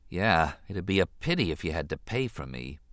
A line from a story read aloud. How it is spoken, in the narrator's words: he said softly